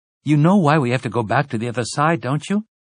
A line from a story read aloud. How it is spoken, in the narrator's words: asked anxiously